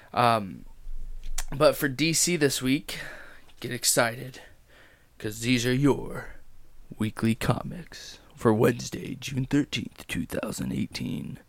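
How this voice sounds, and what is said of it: Slightly worn, off-sounding voice. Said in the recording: “my voice is sounding a little off... it tends to wear on your voice a little bit”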